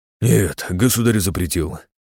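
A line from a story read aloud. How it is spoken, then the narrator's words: Sighed. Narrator (Russian): вздохнул Тимофеев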